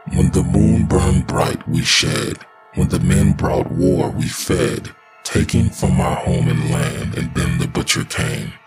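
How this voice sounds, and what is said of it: Guttural, unnatural possessed voice. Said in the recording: “in a guttural voice that was not her own”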